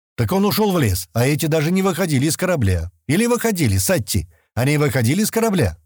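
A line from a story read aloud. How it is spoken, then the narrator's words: Loud question. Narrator (Russian): громко спросил Стэн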